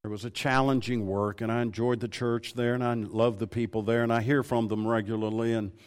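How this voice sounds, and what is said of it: Southern US accent, East Texas sound. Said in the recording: “you've got a certain accent ... I'm from Tennessee originally ... I probably talk like an East Texan ... I probably sound a lot like an East Texan”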